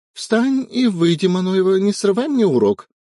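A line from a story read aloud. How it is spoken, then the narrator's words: Shrill shriek. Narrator (Russian): взвизгнула Кулешова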